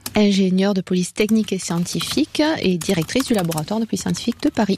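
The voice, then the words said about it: Southern French accent. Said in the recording (French): “cet accent du Sud ... À part cet accent du Sud”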